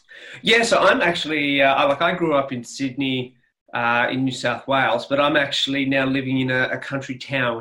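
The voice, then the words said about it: Australian accent. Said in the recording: “your wonderful Australian accent”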